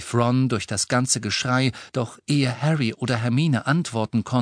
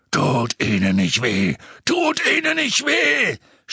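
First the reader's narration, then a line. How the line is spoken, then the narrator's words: Screaming. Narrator (German): schrie er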